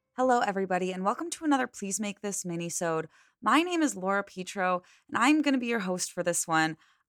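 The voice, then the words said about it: Hoarse, strained voice. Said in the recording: “I am losing my voice a little bit ... I feel like I've been having a new cold or cough every other week now ... So I've been sounding like this on and off”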